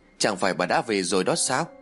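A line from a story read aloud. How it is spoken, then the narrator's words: Smiling. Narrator (Vietnamese): Ái mỉm cười rồi nói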